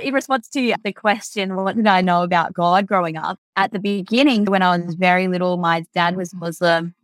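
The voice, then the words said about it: Strong Australian accent. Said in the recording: “hence the Aussie accent. I've got a very Aussie accent.”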